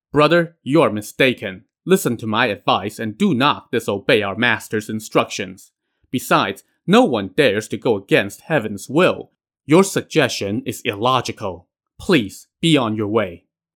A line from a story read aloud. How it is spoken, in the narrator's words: Jiang Ziya now says sternly